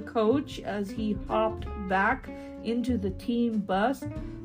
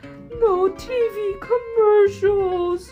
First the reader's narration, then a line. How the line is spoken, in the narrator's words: cried Mother